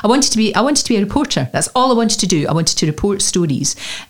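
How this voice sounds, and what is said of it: Scottish accent. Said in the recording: “the boss at that time didn't like my accent. Nobody spoke like me on the telly ... unless I took elocution lessons ... the Scottish reporter”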